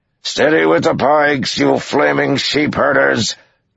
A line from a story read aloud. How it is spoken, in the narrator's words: Uno bellowed